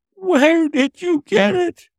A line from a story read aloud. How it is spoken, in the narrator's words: he groaned